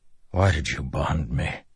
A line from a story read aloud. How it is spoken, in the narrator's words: Delinar whispered to the Stormfather